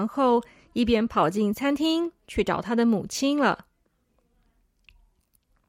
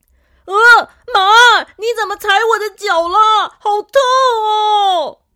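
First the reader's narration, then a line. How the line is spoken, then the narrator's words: Pained, near tears. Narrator (Chinese): 小伟痛的都快哭了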